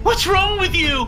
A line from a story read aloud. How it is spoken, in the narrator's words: He screamed